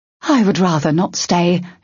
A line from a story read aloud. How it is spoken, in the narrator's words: Ulilenia said sharply